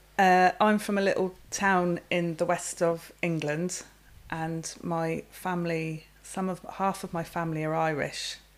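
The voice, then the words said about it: English accent. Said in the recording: “you've an English accent”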